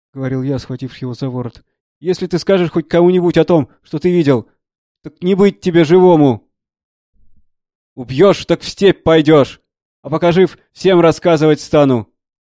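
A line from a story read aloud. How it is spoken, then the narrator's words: Shouting. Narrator (Russian): кричал он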